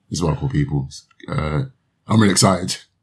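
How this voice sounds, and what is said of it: Flat monotone sarcastic delivery. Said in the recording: “as you can tell by my monotone voice”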